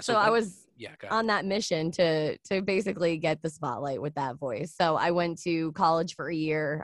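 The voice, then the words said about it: Low, raspy, velvety sultry voice. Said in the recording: “people would tell me that I had, like, this raspy voice ... it sounded like it was, like, an old woman kind of talking ... You have a layer of sultry wisdom in your voice ... a velvety, sultry wisdom ... Yours is a velvety kind of sultry”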